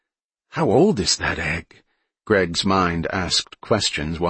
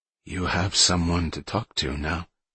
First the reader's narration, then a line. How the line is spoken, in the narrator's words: he said quietly